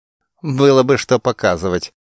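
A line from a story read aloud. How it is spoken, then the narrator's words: Girl snorting. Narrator (Russian): девица фыркнула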